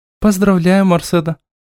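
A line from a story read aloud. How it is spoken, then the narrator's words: Rather dry greeting. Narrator (Russian): Почему-то довольно сухо поприветствовала ее Рика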